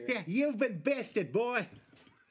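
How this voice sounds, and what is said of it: Put-on New York accent. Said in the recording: “That's his New Yorker accent? ... New York”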